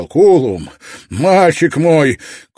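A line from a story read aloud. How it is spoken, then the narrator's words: Shouting, emotional. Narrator (Russian): увидел слезы на его лице и прокричал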